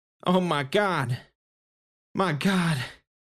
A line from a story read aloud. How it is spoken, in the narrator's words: the voice choked out